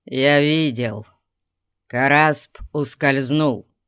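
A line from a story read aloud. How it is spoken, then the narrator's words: Growled. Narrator (Russian): прорычал Зирас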